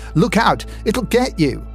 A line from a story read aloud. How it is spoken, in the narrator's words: went crazy, shrieking